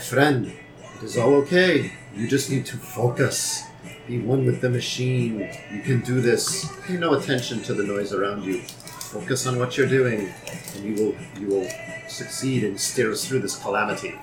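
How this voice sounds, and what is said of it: Soft, soothing, close whisper. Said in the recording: “Very soothingly voiced. ... Like, right by his ear. ... Really kind of creepy. ... whisper”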